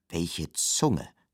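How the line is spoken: Sighing. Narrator (German): seufzten eines Tages die Zähne

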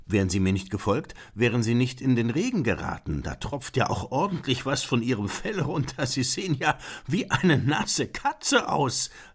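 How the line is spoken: Laughing. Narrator (German): lachte Beethoven

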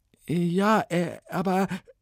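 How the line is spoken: Stammering. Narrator (German): stammelte Ilona

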